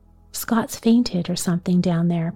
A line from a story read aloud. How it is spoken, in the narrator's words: Pa said